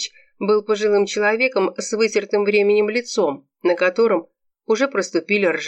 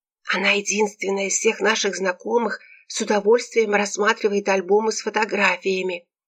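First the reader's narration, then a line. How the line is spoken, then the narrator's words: Hissing. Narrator (Russian): шипела тетя Вера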